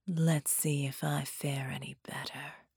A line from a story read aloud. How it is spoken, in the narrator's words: she whispered, and sighed